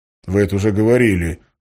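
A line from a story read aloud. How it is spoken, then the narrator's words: Grumbled. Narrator (Russian): буркнул Валентин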